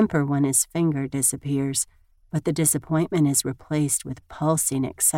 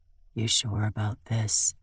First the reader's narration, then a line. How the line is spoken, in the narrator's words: he whispers